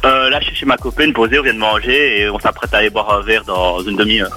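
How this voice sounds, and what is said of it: Strong Liège Belgian French accent. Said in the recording (French): “ça s'entend super fort. Tu viens de Liège ... je kiffe l'accent de Liège”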